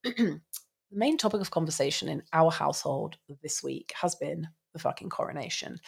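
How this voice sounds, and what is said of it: Nasal, congested voice. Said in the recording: “I have been suffering quite intensely with tree pollen allergies all of this week, so this is why I sound so nasally.”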